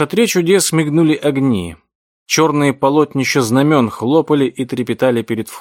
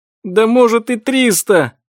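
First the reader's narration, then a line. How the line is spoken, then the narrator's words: Sobbing out. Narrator (Russian): взрыдал Джим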